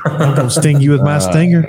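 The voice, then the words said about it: Cartoon bee character voice, southern drawl. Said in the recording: “It's like that bee from Family Guy ... That is a perfect, yes. Boy, you sound just like it. ... I've been working on that impression for a while”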